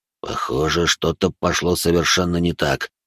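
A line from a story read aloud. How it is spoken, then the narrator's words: Quiet, thinking aloud. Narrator (Russian): проговорил он тихо, словно размышляя вслух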